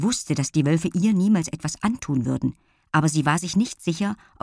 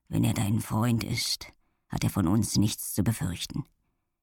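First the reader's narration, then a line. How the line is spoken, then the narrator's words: Quiet. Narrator (German): sagte er leise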